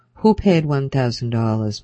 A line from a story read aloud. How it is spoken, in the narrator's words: Puller said sharply